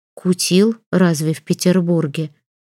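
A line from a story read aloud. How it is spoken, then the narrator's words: Timid question, aunt. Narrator (Russian): робко спросила тетка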